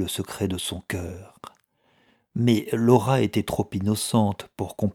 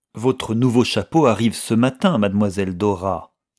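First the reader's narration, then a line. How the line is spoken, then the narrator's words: Rather curt tone. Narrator (French): dit Elisabeth d'un ton assez sec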